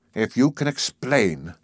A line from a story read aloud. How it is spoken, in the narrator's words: he began rather stiffly